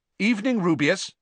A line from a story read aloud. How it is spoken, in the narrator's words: said Riddle sharply